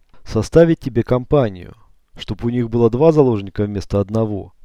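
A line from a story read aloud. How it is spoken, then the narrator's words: Snort. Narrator (Russian): хмыкнул Черный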